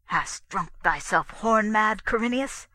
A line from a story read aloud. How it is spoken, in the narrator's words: said the king under his breath, his voice shaken with anger